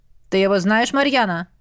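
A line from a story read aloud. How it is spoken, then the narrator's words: Menacing dragon growl. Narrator (Russian): грозно прорычал дракон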